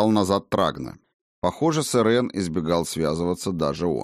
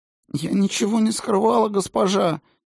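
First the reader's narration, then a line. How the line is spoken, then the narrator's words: Whimpering. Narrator (Russian): Немедля принялась хныкать Сильвия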